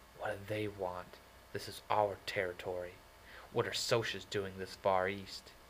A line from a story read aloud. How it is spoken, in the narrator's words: I muttered